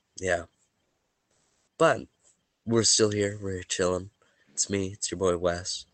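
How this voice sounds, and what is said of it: Sniffly, congested, weakened voice. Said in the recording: “Excuse me if I sound a little sniffly this evening... I'm a little sniffly... my voice is gone”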